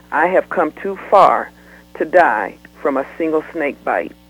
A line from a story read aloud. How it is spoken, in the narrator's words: she said in a low tone